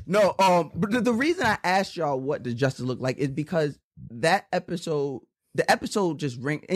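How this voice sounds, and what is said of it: Usual voice. Nothing is said of it.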